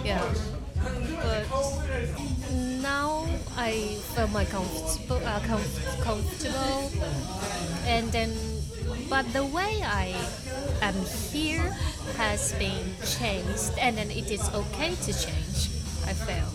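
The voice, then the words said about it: British accent. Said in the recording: “you have a wonderful British accent ... that's a British person talking to me ... It was like super British for me.”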